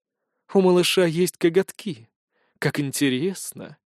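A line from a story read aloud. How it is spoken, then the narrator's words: Pleased purring. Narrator (Russian): с непонятным наслаждением промурлыкала она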